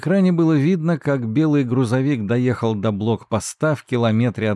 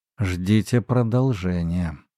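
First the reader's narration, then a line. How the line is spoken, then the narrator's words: Mutter. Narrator (Russian): пробормотал он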